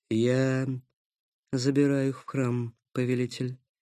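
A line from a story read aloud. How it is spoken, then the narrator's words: Low voice. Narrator (Russian): сказала она низким голосом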